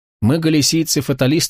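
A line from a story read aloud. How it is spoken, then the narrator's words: Plain. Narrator (Russian): сказал он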